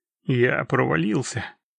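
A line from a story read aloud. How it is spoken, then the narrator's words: Gloomy statement. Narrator (Russian): сообщил Геральт мрачно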